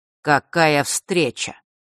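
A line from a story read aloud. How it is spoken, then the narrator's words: Cold greeting. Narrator (Russian): холодно поприветствовал Рок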